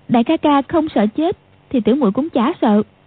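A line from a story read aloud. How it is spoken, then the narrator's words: Smiling. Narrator (Vietnamese): Quách Tường mỉm cười nói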